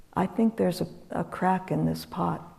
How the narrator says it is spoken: the potter just very calmly stood up and said

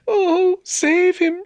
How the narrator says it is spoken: she cried

